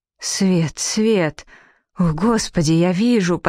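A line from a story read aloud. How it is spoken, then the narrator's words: Near moan. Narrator (Russian): почти простонал он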